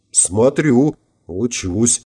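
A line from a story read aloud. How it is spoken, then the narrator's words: Mumble. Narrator (Russian): пробормотала я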